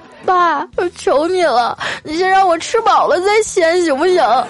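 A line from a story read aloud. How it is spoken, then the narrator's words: Crying while speaking. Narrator (Chinese): 我就一边哭啊一边说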